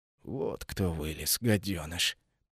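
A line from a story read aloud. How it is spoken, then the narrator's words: Hissing. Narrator (Russian): практически прошипел Анитил Третий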